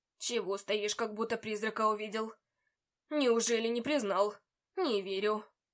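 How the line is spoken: Professor scoffing. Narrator (Russian): хмыкнул профессор

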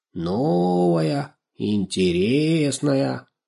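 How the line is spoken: Cat purring. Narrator (Russian): промурлыкал кот

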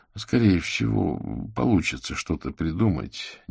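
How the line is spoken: Uncertain. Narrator (Russian): неуверенно ответил Аверин

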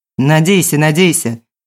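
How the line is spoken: Smirking. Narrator (Russian): хмыкнул Власов

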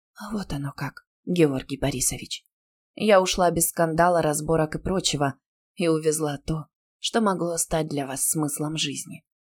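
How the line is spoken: Whisper in ear. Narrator (Russian): прошептав на ухо

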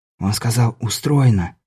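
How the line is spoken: Whisper. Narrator (Russian): шепнул Беляев

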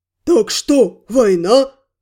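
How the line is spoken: Puzzled booming, orc. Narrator (Russian): озадаченно прогудел орк

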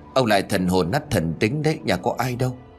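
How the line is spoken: Old woman muttering. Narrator (Vietnamese): Bà lẩm bẩm

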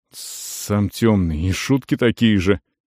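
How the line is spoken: Displeased mutter. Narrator (Russian): недовольно пробормотал Бракос

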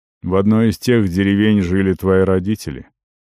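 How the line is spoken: Hollow, muffled voice. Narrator (Russian): голос прозвучал глухо

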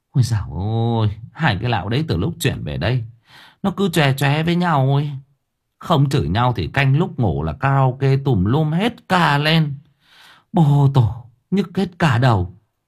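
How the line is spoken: Sighing. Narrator (Vietnamese): Mẹ nó thở dài

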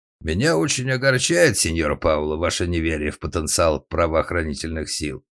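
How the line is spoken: Dry, curt. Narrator (Russian): сухо произнес сеньор Стакани

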